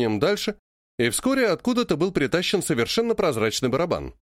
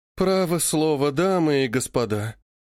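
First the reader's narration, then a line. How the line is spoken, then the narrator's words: Pained woman's voice. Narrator (Russian): страдальческим голосом сказала великая княгиня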